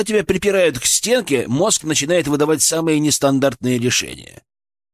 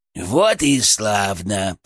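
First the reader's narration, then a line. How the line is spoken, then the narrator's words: Muttering inside head. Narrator (Russian): пробормотал у меня в голове Фырк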